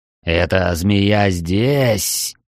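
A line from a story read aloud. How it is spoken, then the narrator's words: Captain hissing. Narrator (Russian): прошипел капитан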